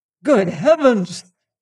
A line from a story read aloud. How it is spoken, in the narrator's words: he exclaimed